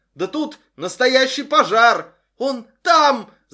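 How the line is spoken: Screaming. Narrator (Russian): завопила Нэнси

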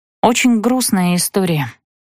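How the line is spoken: Sigh. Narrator (Russian): вздохнула я

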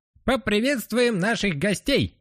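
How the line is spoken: Yelling. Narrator (Russian): завопил Табаки

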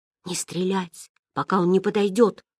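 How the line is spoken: Whispered. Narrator (Russian): шепнул Сэм

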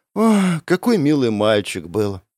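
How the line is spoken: Young lady sighing. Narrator (Russian): вздохнула барышня

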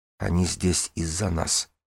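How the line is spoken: Muttering. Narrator (Russian): пробормотала я

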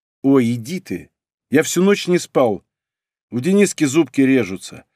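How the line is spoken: Dismissive. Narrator (Russian): отмахнулся Сеня

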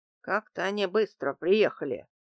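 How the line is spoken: Muttered. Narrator (Russian): пробормотал Дмитрий Иванович

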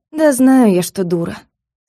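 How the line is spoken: Rueful sigh. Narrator (Russian): сокрушенно вздохнула Юля

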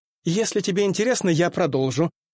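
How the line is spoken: Snapping retort. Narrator (Russian): огрызнулась Элли

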